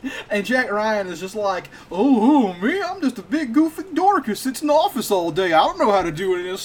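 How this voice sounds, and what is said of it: Usual voice. Nothing is said of it.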